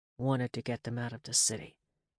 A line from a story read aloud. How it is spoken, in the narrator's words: Cyrus murmured